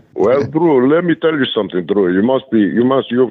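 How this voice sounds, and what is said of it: Imitates another person's voice. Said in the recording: “can you do a Nikolai was, impersonation?”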